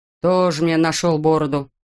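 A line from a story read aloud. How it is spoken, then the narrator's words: Grumble. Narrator (Russian): проворчал механик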